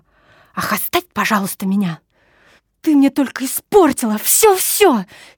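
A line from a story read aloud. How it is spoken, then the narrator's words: Heated, passionate exclamation. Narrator (Russian): С сердцем и горячностью воскликнула она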